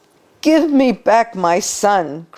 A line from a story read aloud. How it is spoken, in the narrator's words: cried the desperate father